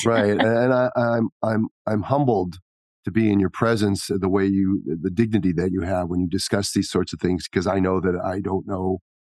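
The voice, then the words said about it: Choked-up, emotional voice. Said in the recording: “I get choked up when you talk about this sort of thing.”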